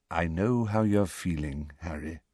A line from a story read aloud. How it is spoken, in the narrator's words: said Dumbledore very quietly